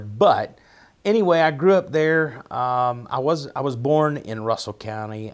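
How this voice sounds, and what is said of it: Appalachian accent. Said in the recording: “our Appalachian accent”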